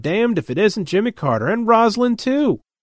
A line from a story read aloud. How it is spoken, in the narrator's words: Fred's exclaimed